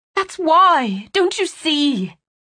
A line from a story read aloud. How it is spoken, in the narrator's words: she pleaded